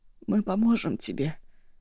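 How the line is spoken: Hoarse question. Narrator (Russian): хрипло спросила Ашосси

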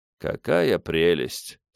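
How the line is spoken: Sad. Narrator (Russian): сказал отчего-то печально

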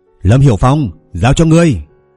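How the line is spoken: Loud shout. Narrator (Vietnamese): Hắn hét lớn nói

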